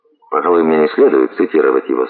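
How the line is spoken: Plain. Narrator (Russian): сказал он

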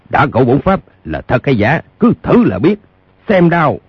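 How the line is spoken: Hot-tempered shout. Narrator (Vietnamese): Lương trưởng lão tính tình nóng nảy đã không nhịn nổi, quát

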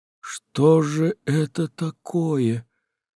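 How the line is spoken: Bewildered whisper. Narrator (Russian): растерянно шептал Аларин

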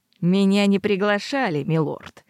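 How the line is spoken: Through gritted teeth. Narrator (Russian): процедил Нельтон

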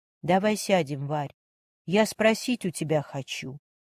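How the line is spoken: Quiet speech. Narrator (Russian): тихо проговорила Ольга

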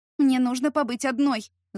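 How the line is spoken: Angry, clipped words. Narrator (Russian): зло повторила я, чеканя каждое слово

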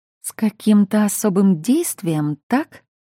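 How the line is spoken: Through clenched teeth. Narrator (Russian): процедила

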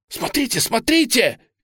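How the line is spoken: Shout. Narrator (Russian): крикнул Гиберн

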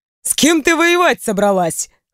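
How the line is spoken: Short laugh. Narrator (Russian): хохотнул я

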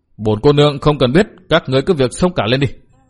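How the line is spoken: Resentful scolding shout. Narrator (Vietnamese): Hà Ngọc Trì hậm hực quát mắng

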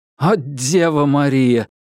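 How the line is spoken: Groaning. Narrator (Russian): простонал Грижес

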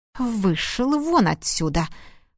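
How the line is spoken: Spiteful, through teeth. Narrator (Russian): Процедила она злобно

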